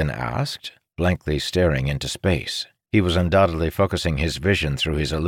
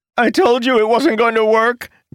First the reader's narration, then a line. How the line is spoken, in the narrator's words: Jacob shouted